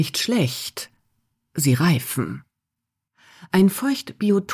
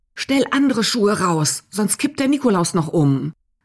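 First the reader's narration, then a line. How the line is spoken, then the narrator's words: Calling. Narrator (German): ruft sie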